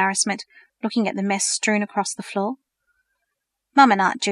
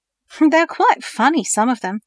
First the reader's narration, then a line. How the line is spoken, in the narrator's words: laughed